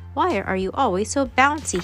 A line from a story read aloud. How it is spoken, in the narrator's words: cried